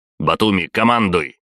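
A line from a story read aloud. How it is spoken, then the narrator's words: Barked. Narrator (Russian): рявкнул я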